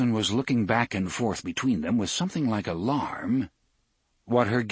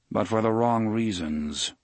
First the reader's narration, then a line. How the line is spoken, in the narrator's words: Roland said in a dry tone